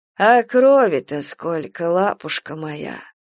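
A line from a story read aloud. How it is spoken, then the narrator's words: Old woman's toothless mumble. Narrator (Russian): Близко-близко у самого лица Сани зашамкали старушечьи замшевые губы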